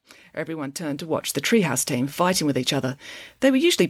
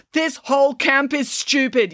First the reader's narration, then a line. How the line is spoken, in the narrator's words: yelled Brandon